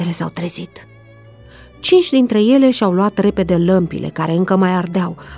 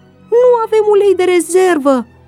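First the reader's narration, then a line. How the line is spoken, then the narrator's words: Shouted. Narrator (Romanian): au strigat ele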